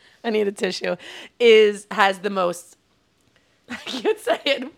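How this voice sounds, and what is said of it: Usual voice. Nothing is said of it.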